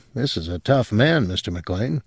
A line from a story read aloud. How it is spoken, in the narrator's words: Lowe said quietly